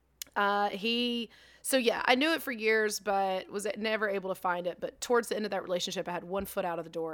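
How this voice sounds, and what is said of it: Hoarse, worn-out voice. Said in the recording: “my voice is gone, y'all. Sorry. Might have partied too hardy this weekend.”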